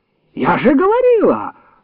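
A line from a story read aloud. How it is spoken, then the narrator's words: Aunt's shrill shriek. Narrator (Russian): взвизгнула тетка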